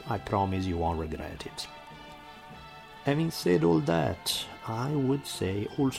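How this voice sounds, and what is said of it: Heavy Italian accent. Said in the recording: “my heavy Italian accent”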